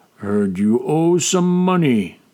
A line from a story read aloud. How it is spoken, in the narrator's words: Orag said slowly